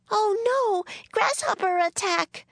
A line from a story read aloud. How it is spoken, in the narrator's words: screamed Kate